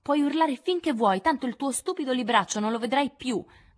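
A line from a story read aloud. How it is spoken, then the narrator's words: Excited shout. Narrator (Italian): gridò Amy lasciandosi prendere dall'eccitazione a sua volta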